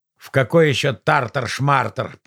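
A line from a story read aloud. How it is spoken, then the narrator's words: Hissing toothless goose. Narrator (Russian): прошипел обеззубленный гусь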